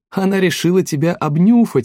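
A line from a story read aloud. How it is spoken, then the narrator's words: Female exclamation. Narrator (Russian): воскликнула Лиля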